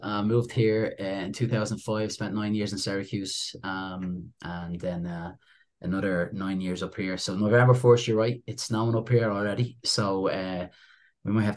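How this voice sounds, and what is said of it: Irish accent. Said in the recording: “I don't have an upstate New York nasally accent ... I'm actually from Dublin, Ireland”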